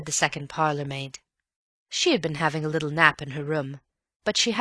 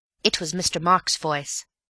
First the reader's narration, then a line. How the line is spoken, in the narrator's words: said Elsie firmly